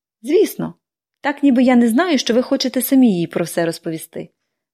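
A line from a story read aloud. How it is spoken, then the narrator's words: Cheerful tossed remark. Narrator (Ukrainian): весело кинула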